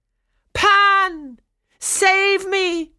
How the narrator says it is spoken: Chloe cried

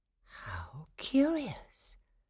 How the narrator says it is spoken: Clara whispered to herself, suddenly calm again

